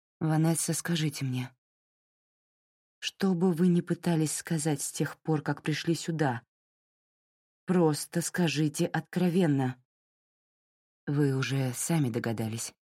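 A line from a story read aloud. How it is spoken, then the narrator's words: Gentle. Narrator (Russian): мягко произнесла Кастро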